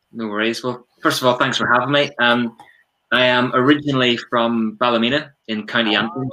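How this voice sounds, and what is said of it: Northern Irish accent. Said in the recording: “that beautiful accent gives it away”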